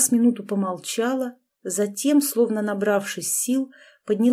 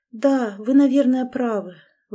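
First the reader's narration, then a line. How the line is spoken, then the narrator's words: Sighing. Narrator (Russian): вновь вздохнула Наталья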